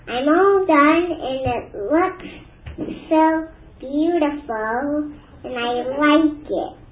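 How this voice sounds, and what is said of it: Noticeable accent. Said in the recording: “pay attention to the accent of this one”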